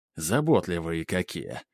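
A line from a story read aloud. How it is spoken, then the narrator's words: Grumble. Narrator (Russian): пробурчал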